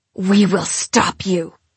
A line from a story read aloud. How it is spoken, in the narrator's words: she hisses as she squeezes, just as if she never loved me